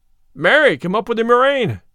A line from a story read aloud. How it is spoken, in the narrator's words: cried the tanner, for he too had talked himself into a fume